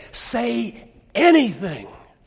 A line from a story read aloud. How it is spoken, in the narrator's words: the director whispering, saying